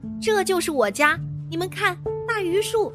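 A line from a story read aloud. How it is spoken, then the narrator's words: Excited shouting. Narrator (Chinese): 彤彤 兴奋地 大喊大叫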